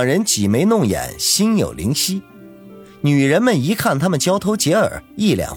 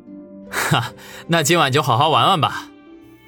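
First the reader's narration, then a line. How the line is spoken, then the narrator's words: Grinning. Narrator (Chinese): 王宇咧嘴一笑，说道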